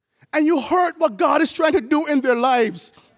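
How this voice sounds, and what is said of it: Emotional, choked-up voice. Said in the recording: “Sorry, I'm getting emotional.”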